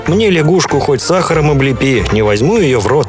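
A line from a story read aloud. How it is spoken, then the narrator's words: Plain. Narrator (Russian): говорит Собакевич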